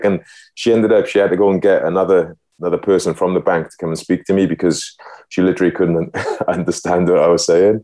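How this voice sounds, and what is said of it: Thick Welsh accent. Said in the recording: “my accent was a lot thicker than it is now ... I've got quite thick ... from being from Wales”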